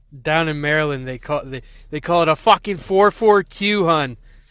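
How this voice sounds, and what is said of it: Put-on Maryland accent. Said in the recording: “I've been practicing my mm. Maryland accent. ... that's nice Maryland days, eh?”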